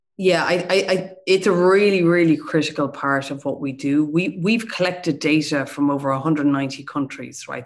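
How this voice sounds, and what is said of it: Dublin Irish accent. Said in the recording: “You have a lovely Dublin accent.”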